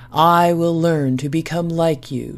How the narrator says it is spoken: she said

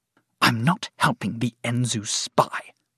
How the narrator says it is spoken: Sarsa snapped

